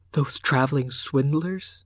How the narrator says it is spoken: he whispered

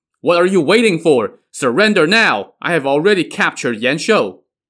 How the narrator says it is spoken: Song Jiang shouted to them

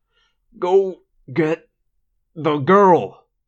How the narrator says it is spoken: he said through gritted teeth

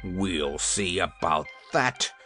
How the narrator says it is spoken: replied the King, muttered

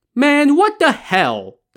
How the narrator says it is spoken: the peddler exclaimed

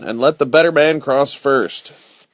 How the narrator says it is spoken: shouted Robin

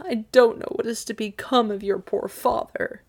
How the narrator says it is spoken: groaned Midas dolefully

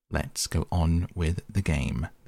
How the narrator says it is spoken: the Queen said to Alice

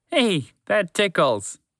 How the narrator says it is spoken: Montgomery the Moose said with a laugh

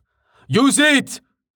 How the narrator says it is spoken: Val shouted

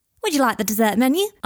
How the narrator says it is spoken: asked the chirpy waiter

